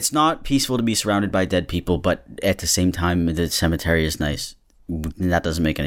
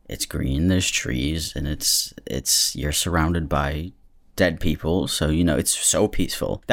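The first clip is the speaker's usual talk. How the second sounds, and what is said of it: Sarcastic tone. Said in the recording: “That was sarcasm,”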